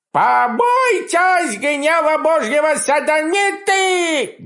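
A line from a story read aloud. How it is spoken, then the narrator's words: Booming falsetto howl, cracking shrill. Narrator (Russian): Громогласным фальцетом, срывающимся на ультразвук, взвыл дьяк Груздев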